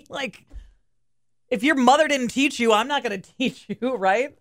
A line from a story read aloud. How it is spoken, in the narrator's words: I yelled in the guy's window